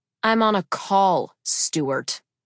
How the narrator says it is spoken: I growled

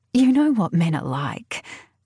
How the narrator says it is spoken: chuckle, a sound so utterly forced that it hurts

